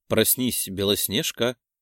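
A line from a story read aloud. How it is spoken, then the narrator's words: Soft call. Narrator (Russian): Негромко позвал я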